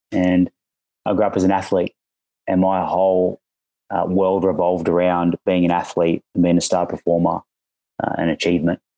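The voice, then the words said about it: Australian accent. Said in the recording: “I'm an Aussie, as you may hear from the accent.”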